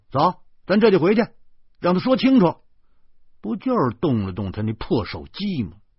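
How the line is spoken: Angry. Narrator (Chinese): 我怒火攻心，浑身痒痒，于是拉起了豆豆说

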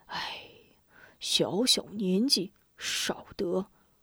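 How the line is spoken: Angry old woman sighing. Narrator (Chinese): 老婆婆气得叹道

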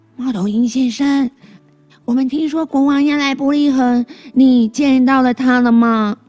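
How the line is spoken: Loud. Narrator (Chinese): 贝贝 高声说

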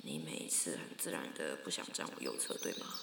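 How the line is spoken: Slightly quiet. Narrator (Chinese): 同事……有一点小声的说

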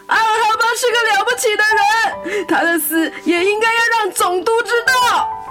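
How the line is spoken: Sudden shout. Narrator (Chinese): 突然有人大喊

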